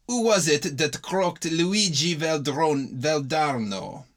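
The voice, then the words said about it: Put-on hoarse Italian accent. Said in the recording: “Italian accent ... asked the Italian hoarsely”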